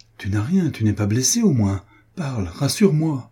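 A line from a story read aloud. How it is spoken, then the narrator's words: Exclaimed. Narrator (French): s'écria-t-il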